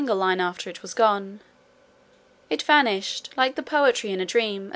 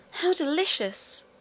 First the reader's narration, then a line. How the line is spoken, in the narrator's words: exclaimed the princess